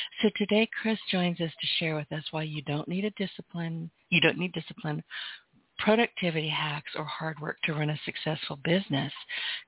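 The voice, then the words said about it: Hoarse, fading voice. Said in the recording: “I am losing my voice,”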